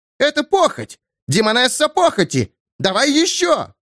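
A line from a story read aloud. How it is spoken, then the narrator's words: Woman screaming in terror. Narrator (Russian): Пышнотелая ногая женщина вопила в ужасе, скованная заклинанием Бошелена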